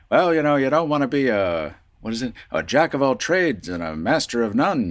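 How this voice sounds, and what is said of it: Old-timey 1940s radio announcer voice. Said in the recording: “that was my grandfather's voice ... like, that 20s radio voice, that 40s radio voice”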